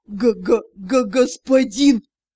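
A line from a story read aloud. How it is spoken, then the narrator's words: Strained, stammering. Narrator (Russian): с трудом выдавил Савин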